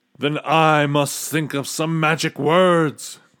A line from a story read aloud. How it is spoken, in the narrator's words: groaned the king